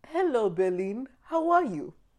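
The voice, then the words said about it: Imitated African accent. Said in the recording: “he was African, so I'm gonna do my accent of him”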